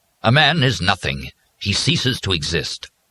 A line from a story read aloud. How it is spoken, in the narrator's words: the Padre said in a somewhat more forceful voice